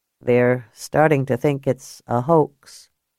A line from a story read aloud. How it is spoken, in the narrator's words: Cal said quietly